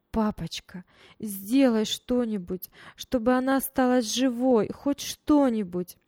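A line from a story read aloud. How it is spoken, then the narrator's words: Loud sobbing plea. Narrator (Russian): Таня громко рыдала и просила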